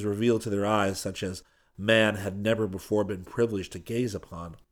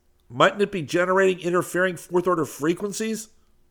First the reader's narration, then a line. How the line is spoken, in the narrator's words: cried Seaton